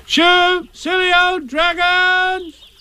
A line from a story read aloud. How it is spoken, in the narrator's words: shouted